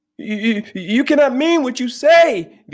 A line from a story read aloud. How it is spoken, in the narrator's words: the other shrieked